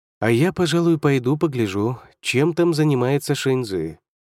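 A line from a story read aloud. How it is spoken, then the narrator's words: Contented purr. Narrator (Russian): промурлыкал Юнгуань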